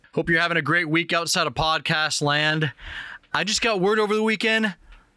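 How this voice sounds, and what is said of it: Slightly scratchy voice. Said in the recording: “my voice is still a little scratchy. I'm still recovering from being sick”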